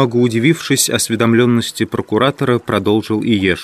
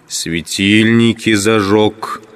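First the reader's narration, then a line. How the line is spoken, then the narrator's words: Through clenched teeth. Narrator (Russian): сквозь зубы в тон арестанту проговорил Пилат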